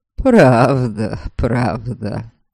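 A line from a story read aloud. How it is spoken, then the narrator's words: Mocking assurance. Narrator (Russian): насмешливо заверил его Норберг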